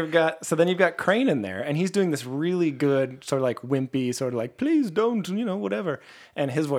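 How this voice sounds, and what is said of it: Usual voice. Nothing is said of it.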